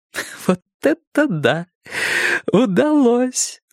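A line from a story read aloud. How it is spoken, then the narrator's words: Strained through laughter. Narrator (Russian): сквозь смех выдавила она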